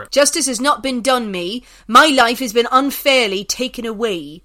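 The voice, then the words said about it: Attempted Somerset accent. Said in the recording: “I'll try and do this in a Somerset accent.”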